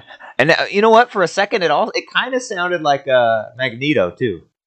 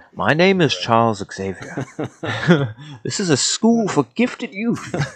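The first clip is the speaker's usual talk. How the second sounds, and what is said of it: British old man voice. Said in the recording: “It was like just a British old man voice.”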